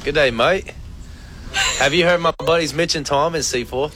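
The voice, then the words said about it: Attempted Australian accent, sounds British. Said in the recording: “put on his best Australian accent ... That sounds like I'm from London. ... It does sound very British.”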